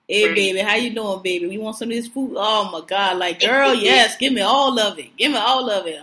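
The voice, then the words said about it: Put-on New Orleans accent. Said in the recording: “The accent is my favorite... Oh, it's the best accent in the world. That's the get it all accent.”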